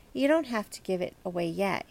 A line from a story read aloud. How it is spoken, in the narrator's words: he added quickly